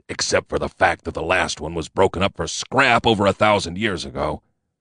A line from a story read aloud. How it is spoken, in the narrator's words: he mumbled